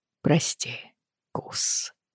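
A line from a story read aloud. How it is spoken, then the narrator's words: Quiet. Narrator (Russian): тихо сказал он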